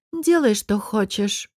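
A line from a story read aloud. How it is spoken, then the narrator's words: Tired. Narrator (Russian): устало сказала Айла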